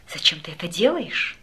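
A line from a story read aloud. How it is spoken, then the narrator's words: Whisper. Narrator (Russian): прошептала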